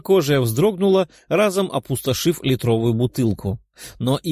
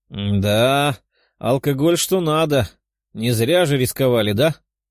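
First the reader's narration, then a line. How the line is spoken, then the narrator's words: Chuckling. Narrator (Russian): хохотнула зеленокожая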